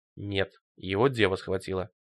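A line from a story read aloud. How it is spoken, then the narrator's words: Gruff mutter. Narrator (Russian): буркнул Руди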